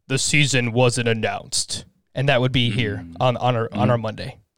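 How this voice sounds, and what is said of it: Deep movie narrator voice. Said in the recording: “I have that narrator voice just going off inside my head ... that was a pretty deep narrator voice.”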